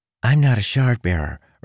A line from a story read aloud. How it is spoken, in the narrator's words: Renarin said